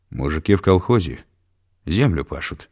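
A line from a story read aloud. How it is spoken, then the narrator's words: Calm explaining. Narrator (Russian): спокойно пояснил Караваев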